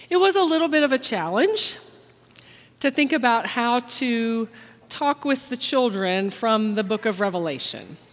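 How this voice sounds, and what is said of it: Slightly hoarse, croaky voice. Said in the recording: “I have a little frog in my throat”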